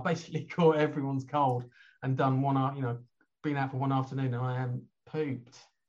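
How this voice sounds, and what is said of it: Slightly hoarse voice. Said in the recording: “you can probably tell I've got a slightly hoarse voice. That's not my natural sexy voice. ... that's illness”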